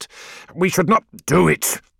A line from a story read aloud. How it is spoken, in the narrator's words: snarled Ekadon